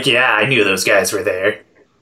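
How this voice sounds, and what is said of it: Imitates an anime character's voice. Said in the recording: “good Shino impression”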